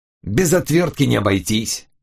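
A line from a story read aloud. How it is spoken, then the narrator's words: Vicious hiss. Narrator (Russian): злобно прошипел криминалист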